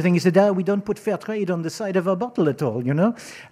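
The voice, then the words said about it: Put-on foreign accent. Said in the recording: “again, with the accents”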